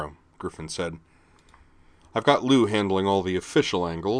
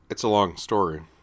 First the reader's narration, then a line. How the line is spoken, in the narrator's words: Griffin said